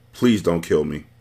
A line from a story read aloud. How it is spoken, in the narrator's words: Odom said calmly